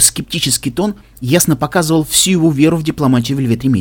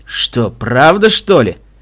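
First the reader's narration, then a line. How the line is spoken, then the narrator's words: Grumbling. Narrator (Russian): пробурчал Стилхувс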